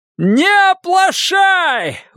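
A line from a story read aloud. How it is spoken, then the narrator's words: Shouting again. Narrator (Russian): вновь крикнул Форд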